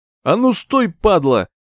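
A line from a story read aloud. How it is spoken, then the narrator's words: Shouting after someone. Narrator (Russian): закричал вслед один из них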